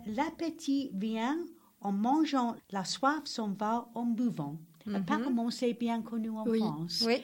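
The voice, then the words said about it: Non-native accent speaking French. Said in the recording (French): “Excusez-moi tout le monde, c'est mon accent”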